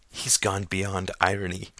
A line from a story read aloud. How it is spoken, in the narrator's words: whispered Todd